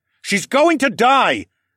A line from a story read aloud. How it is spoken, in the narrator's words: shouted